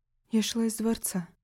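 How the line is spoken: Quiet distracted reply. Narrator (Russian): тихо ответила, все еще пытаясь освежить в памяти события минувшего дня

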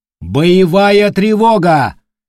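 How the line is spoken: Loud announcement. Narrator (Russian): громко произнес Атерио

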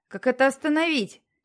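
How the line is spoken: Shouting. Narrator (Russian): крикнул он

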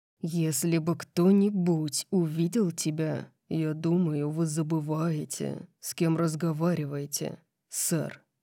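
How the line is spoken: Growl. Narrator (Russian): Прорычал Дариус

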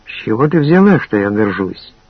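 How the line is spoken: Soft smiling male voice. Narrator (Russian): мягко улыбнулся он мне

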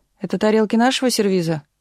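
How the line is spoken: Shout. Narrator (Russian): крикнула тетя Наташа

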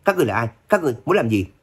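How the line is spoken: Startled loud shout. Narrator (Vietnamese): người kia giật mình hét lớn

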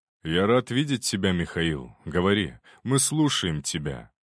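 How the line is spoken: Calm. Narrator (Russian): спокойно кивнул Романов

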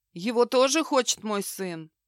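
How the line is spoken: Tired question. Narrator (Russian): Устало спросил

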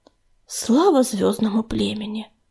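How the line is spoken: Breathless exhale. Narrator (Russian): выдохнул он

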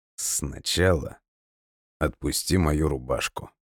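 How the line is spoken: Soft. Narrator (Russian): мягко сказал я

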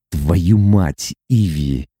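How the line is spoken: Whispered with a smirk. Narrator (Russian): Прошептал он и усмехнулся

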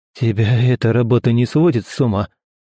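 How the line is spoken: Forced, awkward words. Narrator (Russian): выдавил из себя Константин, просто чтобы как-то разогнать гнетущую тишину

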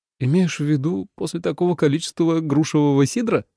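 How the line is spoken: Giggling. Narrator (Russian): хихикнул

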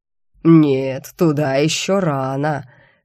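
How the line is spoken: Sepulchral demon voice. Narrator (Russian): все так же загробным голосом прокомментировал мои действия демон

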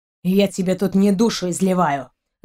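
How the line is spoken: Angry, through teeth. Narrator (Russian): Зло процедил сквозь зубы Рианец

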